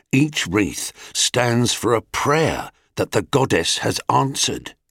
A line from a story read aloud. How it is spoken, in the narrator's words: whispered the foreman